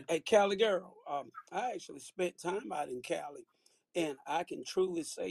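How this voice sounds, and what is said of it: Country accent. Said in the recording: “I'm old country boy, as you can tell by my accent.”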